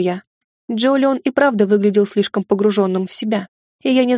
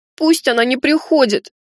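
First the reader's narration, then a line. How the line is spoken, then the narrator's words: Sudden pleading. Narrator (Russian): вдруг взмолился Джолион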